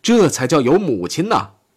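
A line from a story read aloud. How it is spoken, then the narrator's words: Shouting. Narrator (Chinese): 阿道夫曾喊过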